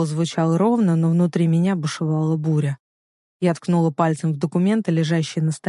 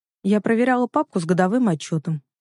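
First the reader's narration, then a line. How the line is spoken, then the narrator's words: Calm statement. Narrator (Russian): спокойно заявила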